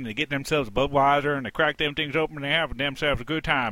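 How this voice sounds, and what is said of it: Put-on redneck accent. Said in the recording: “redneck accent ... my little redneck accent.”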